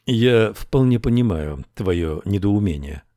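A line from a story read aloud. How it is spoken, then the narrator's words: Calm reply. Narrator (Russian): спокойно ответил герцог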